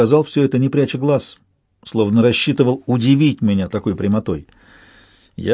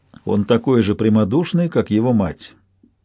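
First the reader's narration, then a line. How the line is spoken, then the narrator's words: Even-toned remark. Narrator (Russian): я заметил ровным тоном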